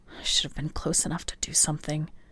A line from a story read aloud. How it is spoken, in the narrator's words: he whispered